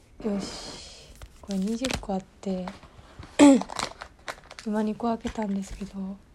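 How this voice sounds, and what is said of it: Speaking quietly in a low voice. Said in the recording (Japanese): “恥ずかしいから。小声。”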